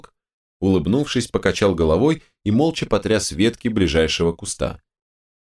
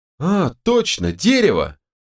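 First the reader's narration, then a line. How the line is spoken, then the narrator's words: Childlike joyful exclamation. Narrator (Russian): совсем по-детски воскликнула Ката, радуясь догадке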